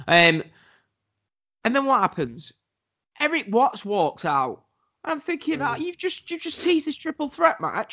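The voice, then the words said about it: Congested voice with a cold. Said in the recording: “I've got a bit of a cold.”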